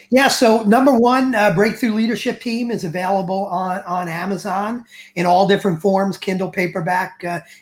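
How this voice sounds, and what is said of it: New York Bronx accent. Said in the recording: “my New York Bronx accent”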